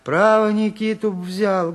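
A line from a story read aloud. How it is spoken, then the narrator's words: Timid. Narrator (Russian): говорила она, робко выступая из-за двери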